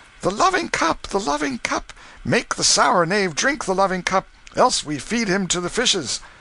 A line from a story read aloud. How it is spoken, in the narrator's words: They cried out